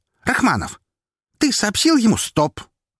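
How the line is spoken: Sharp voice. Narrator (Russian): резко сказал Роман

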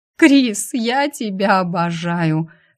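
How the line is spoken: Laughing exclamation. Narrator (Russian): Сквозь смех вырвалась у той

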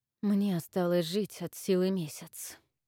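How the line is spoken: Quiet. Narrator (Russian): тихо вымолвил Авис

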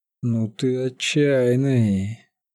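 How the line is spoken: Breathy exhale. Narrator (Russian): выдохнул няга

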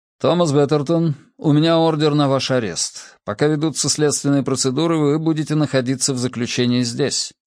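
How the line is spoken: Official announcing tone. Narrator (Russian): Первый из вошедших официальным тоном объявил

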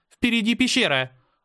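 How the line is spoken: Sharp shout. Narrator (Russian): резко крикнула Мира

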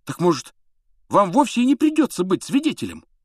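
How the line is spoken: Fervent exclamation. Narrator (Russian): с жаром воскликнул Рон

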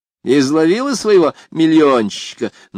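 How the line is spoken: Mocking snort. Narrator (Russian): насмешливо фыркнула Лу

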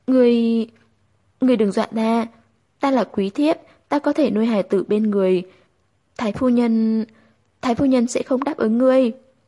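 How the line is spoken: Stammering female. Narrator (Vietnamese): Nàng lắp bắp nói

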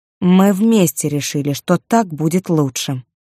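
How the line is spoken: Cold. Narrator (Russian): сказала она холодно

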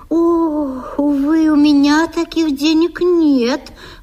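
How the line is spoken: Sigh. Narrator (Russian): вздохнула служанка

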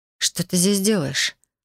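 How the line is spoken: Dry voice. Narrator (Russian): Мой голос прозвучал сухо

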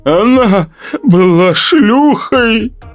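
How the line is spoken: Mumbling through tears. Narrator (Russian): промямлил сквозь слезы Светин муж

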